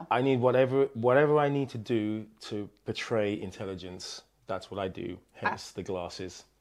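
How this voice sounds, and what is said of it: Speaks with a pleasant accent. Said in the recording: “has a lovely accent”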